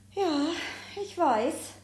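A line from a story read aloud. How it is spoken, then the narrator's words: Sighs. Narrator (German): seufzt Elliot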